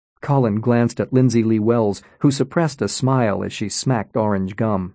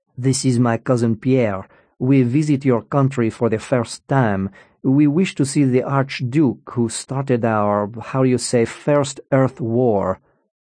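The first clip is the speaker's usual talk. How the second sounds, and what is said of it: Passable put-on foreign accent. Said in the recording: “his accent passable if not magnificent”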